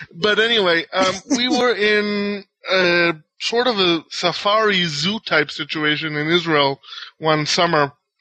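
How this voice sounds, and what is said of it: Foreign accent. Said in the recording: “I'm actually born in Israel and I have family all over the world, etc. Uh, hence my accent that people keep talking about”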